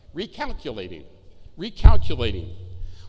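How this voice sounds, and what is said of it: Imitates a GPS navigation voice. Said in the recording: “What does the little voice say?”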